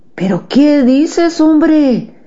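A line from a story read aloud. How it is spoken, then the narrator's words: Exclaimed. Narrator (Spanish): exclamó mi padre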